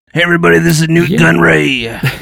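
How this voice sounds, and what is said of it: Impression of a movie character voice. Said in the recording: “do an impression from the prequel ... his impersonations”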